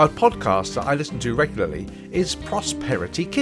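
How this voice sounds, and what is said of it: Usual voice. Nothing is said of it.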